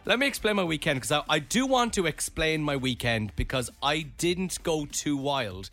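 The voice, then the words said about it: Strained, failing hoarse voice. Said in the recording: “that voice is hanging on by a thread ... I have an issue with my chest recently”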